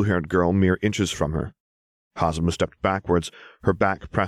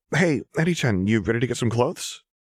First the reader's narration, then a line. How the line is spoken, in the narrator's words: Hazumu asked, her voice unsteady